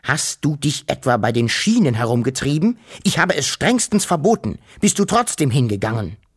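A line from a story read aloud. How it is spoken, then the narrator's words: Thundering. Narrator (German): donnerte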